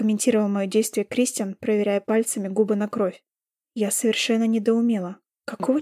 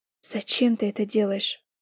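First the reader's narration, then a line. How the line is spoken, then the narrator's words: Quiet question. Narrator (Russian): тихо спросила я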